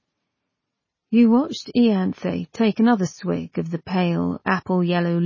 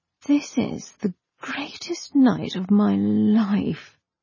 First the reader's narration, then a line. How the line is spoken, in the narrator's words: murmured breathlessly